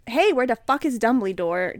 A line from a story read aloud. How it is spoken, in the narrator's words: Draco shouted angrily